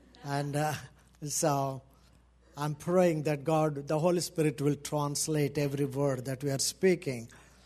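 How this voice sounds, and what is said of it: Thick Indian accent. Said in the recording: “this Indian thick accent.”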